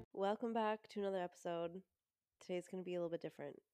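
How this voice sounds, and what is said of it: Stuffed-up, congested voice. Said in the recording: “tell in my voice, I'm a little stuffed up”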